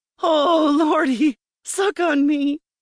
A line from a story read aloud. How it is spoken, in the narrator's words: I cried out